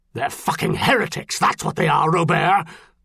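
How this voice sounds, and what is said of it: Dangerous, snapping angry voice. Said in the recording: “half-snapped in a dangerous voice”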